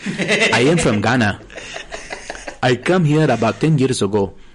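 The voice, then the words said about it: Put-on African English accent. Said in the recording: “I love the African English accent. ... The African English accent, you talk like this.”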